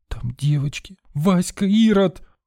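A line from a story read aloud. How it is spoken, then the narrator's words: Girl's high-pitched sobbing cry. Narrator (Russian): вскрикнула вдруг девочка высоким голосом, всхлипнула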